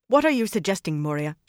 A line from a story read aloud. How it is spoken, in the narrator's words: she snapped